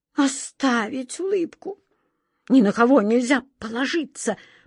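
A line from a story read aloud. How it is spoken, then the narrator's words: Whisper. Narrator (Russian): прошептал король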